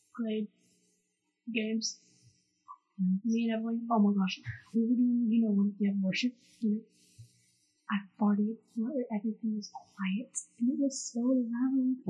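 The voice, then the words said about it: Whispering quietly. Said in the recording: “Why are you whispering? Talk louder.”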